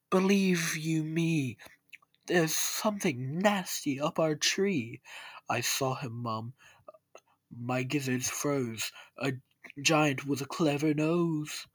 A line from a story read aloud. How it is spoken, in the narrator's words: he cried